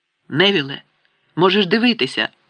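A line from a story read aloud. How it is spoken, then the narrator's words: Exclamation. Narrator (Ukrainian): вигукнув Рон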